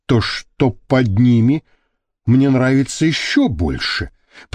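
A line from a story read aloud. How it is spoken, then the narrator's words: Whisper. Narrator (Russian): прошептал он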